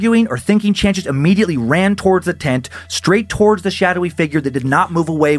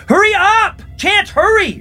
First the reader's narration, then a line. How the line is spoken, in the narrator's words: he heard Nikki scream